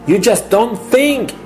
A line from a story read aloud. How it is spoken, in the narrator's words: he screams